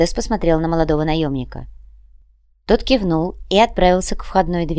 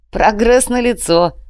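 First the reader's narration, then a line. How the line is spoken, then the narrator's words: Laughing. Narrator (Russian): рассмеялся Артем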